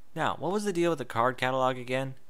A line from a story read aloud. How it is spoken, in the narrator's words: Twilight sighed